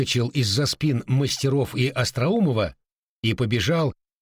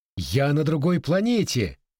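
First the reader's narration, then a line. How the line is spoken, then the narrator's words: Young man's amazed exclamation. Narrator (Russian): Один из инженеров, самый молодой, Иван Сухариков, воскликнул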